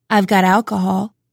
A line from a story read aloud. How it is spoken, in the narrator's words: he said